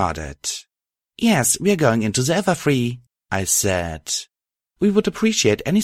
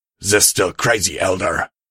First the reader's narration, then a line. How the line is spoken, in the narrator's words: he snapped before sighing loudly